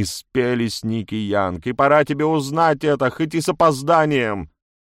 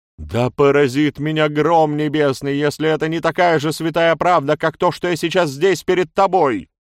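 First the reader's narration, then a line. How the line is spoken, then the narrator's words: Passionate outcry. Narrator (Russian): выкрикнула Мария в бурном порыве чувств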